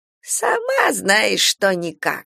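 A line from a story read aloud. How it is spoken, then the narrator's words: Old woman giggling. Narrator (Russian): хихикнула старуха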